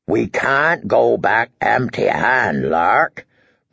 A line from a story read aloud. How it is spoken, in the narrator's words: rumbled Small Paw through the brown whiskers